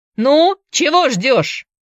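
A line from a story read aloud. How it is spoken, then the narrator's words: Shouting. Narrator (Russian): закричал Шоу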